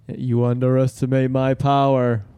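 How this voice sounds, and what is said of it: Impression of a movie character. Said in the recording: “doing a bad impersonation of Anakin”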